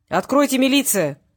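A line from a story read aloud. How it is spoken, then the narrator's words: Barked. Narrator (Russian): рявкнул Васильев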